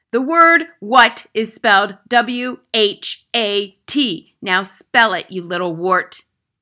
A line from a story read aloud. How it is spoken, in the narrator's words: The Trunchbull was shouting